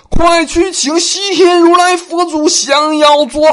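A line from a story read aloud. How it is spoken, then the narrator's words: Panicked hurried shout. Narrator (Chinese): 玉皇大帝惊恐万状，连忙喊道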